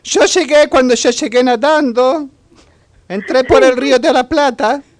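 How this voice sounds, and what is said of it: Put-on Ukrainian accent in Spanish. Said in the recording (Spanish): “acento... Qué buen acento... ¿De Kiev?”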